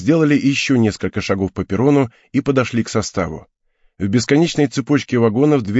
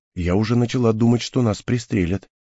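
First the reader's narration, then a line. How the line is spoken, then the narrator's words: Quiet. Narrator (Russian): тихо сказала Хел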